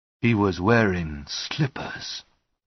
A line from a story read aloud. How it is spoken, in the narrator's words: Lestrade said, in a strangely calm tone of voice